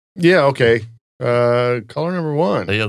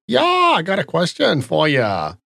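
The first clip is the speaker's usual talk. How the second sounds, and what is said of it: Poorly done put-on accent. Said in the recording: “Why is your accent so terrible? ... I'm not authentic. I'm just trying to be.”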